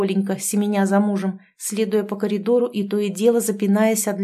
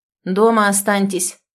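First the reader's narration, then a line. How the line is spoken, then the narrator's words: Angry blurt. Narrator (Russian): зло выпалил ей через плечо Измайлов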